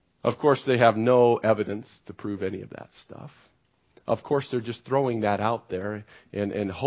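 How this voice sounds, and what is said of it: Usual voice. Nothing is said of it.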